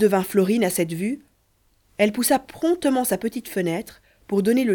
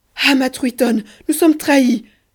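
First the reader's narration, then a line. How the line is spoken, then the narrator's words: Queen exclaiming. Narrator (French): s'écria la reine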